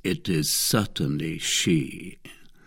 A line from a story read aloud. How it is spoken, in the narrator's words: Murmured Athos